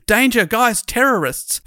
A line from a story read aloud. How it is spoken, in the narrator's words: shouted out to the others